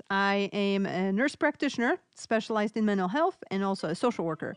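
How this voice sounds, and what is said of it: Polish accent. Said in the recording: “I'm originally from Poland, so hence my accent”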